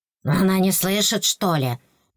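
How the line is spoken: Worried muttering. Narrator (Russian): Донеслось озабоченное бормотание

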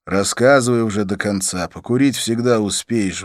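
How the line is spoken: Sighing. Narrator (Russian): вздохнул я

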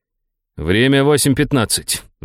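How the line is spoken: Growled. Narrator (Russian): прорычал я

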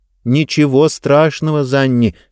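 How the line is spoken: Plain. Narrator (Russian): сказала Диба

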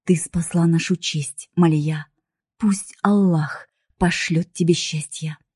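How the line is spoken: Father, tender. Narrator (Russian): отец тихо подошел ко мне, поцеловал в лоб и сказал

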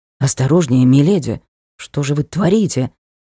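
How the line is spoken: Hoarse, strained throat. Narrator (Russian): хрипло сказал он, массируя себе горло

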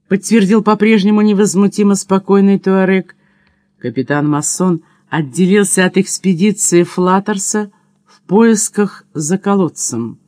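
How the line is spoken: Laughing. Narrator (Russian): смеясь сказал Маранж

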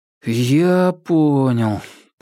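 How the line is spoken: Young man drawling. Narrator (Russian): протянул молодой оперативник

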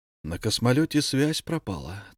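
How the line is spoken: Tragic tone. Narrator (Russian): трагическим тоном сообщил Антон

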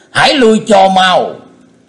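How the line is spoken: Loud shout. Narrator (Vietnamese): thét to lên

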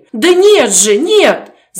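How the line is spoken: Shouted reply. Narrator (Russian): закричала в ответ Катя

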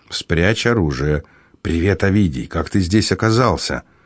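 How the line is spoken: Lowered hissing voice. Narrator (Russian): понизив голос, прошипел

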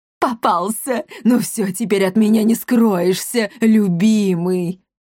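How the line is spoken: Roaring. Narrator (Russian): Взревела Кризельда Гвидон

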